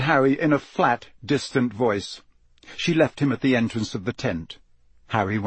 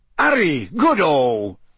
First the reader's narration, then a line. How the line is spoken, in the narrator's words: said Bagman happily